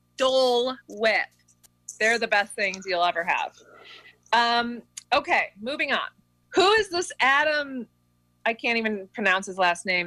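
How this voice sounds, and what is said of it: Canadian accent. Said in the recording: “This is the Canadian accent coming out. ... said Dole, like D U L L.”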